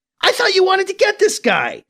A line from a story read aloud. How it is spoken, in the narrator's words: Piccolo blurts out